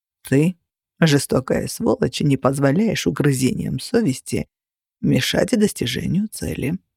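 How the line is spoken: Calm explanation. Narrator (Russian): спокойно пояснил Кости

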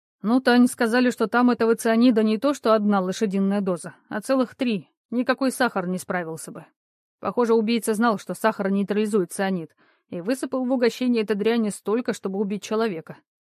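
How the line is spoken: Grim. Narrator (Russian): мрачно сказал Андрей

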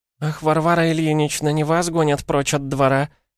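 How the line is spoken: Sobbing woman. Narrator (Russian): всхлипнула Нарышкина Мария Антоновна

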